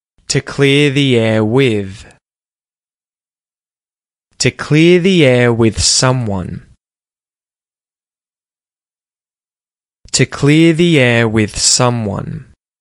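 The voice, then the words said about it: Australian accent. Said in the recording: “sound like an Aussie ... mimic my accent”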